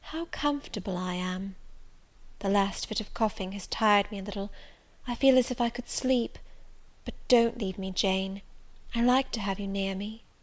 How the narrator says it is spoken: Presently she said, in the sweetest tone

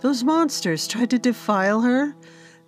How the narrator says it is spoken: The men groaned in anguish at the thought of their princess being hurt in any way

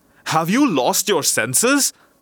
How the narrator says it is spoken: cried the Grand Vizier, starting back in horror

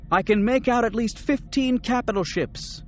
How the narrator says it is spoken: Mara shouted

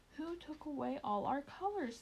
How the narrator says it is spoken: they cried

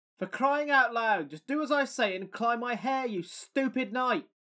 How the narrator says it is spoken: She screamed down at me

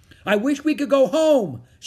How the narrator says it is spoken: shouted Annie

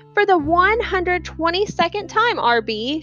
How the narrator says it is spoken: she hollered

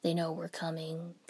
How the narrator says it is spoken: Kakashi-sensei said flatly

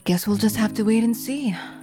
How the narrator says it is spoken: She sighed and answered simply

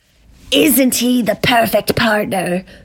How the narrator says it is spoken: the voice sneered again with a soothing yet snake-like quality

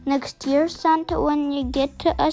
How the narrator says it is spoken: said

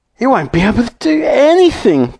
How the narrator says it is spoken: cried Mrs

